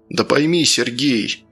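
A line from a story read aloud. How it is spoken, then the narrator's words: General's sigh. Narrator (Russian): вздохнул генерал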